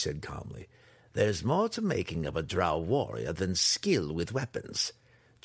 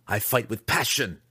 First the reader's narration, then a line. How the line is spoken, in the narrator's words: the weapons master snapped